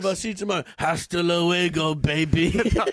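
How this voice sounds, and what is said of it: Austrian-Spanish accent, Terminator-like voice. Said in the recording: “Has the lingo of Terminator. ... So it's an Austrian-Spanish accent merge on the fly.”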